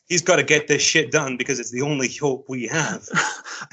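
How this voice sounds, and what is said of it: Gruff put-on Southern US accent. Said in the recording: “that is an excellent Southern act, like grizzly Southern accent, man... Excellent job.”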